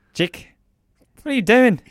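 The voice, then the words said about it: Impression with a Kiwi accent. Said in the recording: “my dad's got a Kiwi accent. Do an impression of my dad, Kiwi.”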